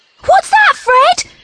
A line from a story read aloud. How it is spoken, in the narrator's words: squealed